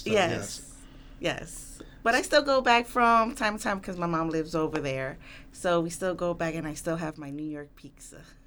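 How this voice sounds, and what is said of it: Slight regional accent. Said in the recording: “Plus your accent. ... A little bit of an accent”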